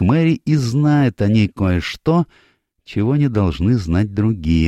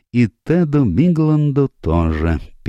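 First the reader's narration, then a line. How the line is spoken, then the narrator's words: Sad. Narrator (Russian): печально продолжил сыщик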